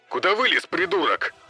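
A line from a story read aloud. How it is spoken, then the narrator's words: Shouting. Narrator (Russian): что-то прокричал Джек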